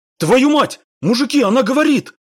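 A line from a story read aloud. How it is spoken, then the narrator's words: Astonished yell. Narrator (Russian): Заорал от удивления человек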